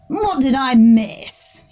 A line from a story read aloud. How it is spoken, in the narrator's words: he said, scoffing at Corineus